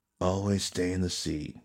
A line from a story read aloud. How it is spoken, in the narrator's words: Aizen murmured